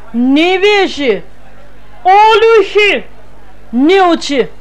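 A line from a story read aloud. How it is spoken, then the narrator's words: Loud shouting, woman. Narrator (Russian): кричала на весь вокзал клетчатая дама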